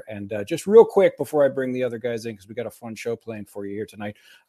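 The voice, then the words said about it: Voice still recovering, nearly back. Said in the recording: “As you can hear, my voice is still recovering, almost all the way back.”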